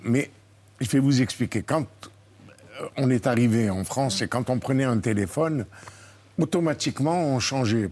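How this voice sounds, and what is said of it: Speaks with a noticeable foreign accent. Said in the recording (French): “moi, je, vous parle avec mon accent à l'heure actuelle”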